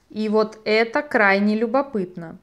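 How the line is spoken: Plain. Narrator (Russian): сказал Желиман

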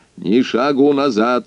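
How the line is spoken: Stern. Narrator (Russian): строго произнес он

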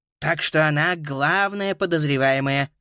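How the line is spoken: Grumbling. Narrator (Russian): проворчал Коннелли

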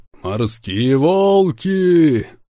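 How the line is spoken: Booming far-carrying voice. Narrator (Russian): Прогремел я, и мой голос разнесся далеко за пределы палубы Франкенштейна

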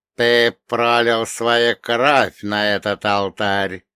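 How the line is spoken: Creaky, nasty voice. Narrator (Russian): продолжил скрипеть своим мерзким голосом перевозчик

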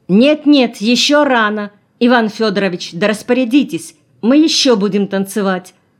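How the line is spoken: Commanding shout. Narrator (Russian): крикнула уже властно Шурочка

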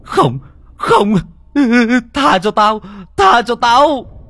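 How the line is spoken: Shrill hiss. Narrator (Vietnamese): Ông rít lên

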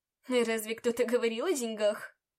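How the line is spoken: Snorted. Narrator (Russian): Фыркнул он

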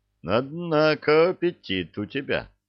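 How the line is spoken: Laughing. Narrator (Russian): засмеялся Илья

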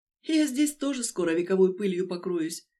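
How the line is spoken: Sighing. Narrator (Russian): вздохнула я

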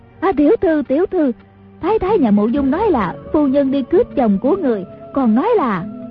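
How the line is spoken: Panicked cry. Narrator (Vietnamese): Nghiêm Ma Má hoảng hốt, kêu lên

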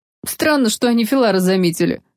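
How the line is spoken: Chuckling remark. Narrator (Russian): хохотнул один из искорей

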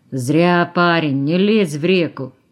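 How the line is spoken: Grumble. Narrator (Russian): заворчал Космачев

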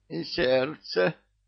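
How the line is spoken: Moaned. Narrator (Russian): простонал Кощей

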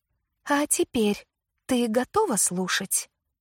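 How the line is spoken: Quiet question. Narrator (Russian): тихо спросила меня Лили

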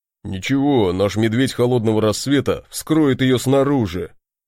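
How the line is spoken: Deep bass voice. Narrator (Russian): пробасил Барди

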